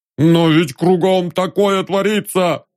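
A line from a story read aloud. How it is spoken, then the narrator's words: Sobbing. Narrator (Russian): всхлипнул Фёкл Антонович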